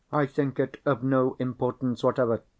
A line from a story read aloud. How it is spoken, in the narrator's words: said Madame Fosco, sharply and suddenly